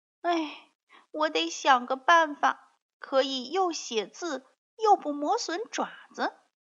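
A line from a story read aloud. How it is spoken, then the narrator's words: Sighing cat. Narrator (Chinese): 瘸脚猫发现自己写字的那只脚短了几毫米，它叹着气说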